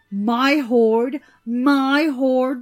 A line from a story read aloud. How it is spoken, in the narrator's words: the dwarf shouted